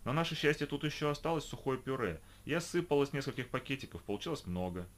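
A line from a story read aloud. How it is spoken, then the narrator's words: Forced casual calm. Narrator (Russian): рассказала Лида, пытаясь вести себя спокойно и непринужденно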